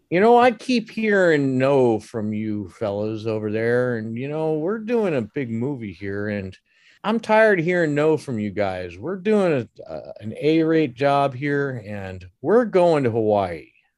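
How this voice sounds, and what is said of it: Imitates another person's voice. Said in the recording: “I'm doing the best imitation I can”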